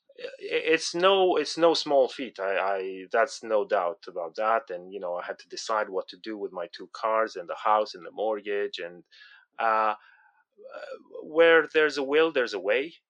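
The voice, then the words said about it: Non-native English accent. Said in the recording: “the listeners will tell from my accent, I'm already an immigrant in the UK”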